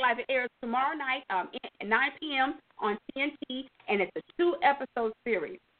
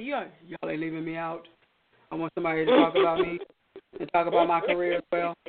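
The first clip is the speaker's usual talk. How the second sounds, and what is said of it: Imitates another person's voice. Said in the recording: “That's my Kill O'Neal impersonation.”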